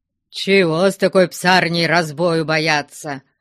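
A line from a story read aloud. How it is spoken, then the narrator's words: Grumbling. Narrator (Russian): ворчал не уходившийся еще Потап Максимыч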